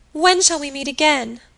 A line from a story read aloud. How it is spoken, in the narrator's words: cried Imogen, weeping